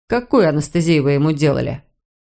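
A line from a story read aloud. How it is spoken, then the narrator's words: Even, suppressed indignation. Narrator (Russian): Кэтрин с трудом поборола вспыхнувшее возмущение и ровным голосом произнесла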